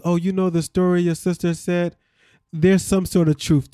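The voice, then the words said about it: Put-on Haitian accent. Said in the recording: “Why you got to put on the accent? Why you got to put on the accent? ... I get into my Haitian bag”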